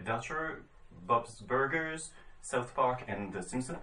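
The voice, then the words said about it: Put-on accent on English names. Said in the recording (French): “Est-ce que mon accent est bon ... Oui, ça va, ça va.”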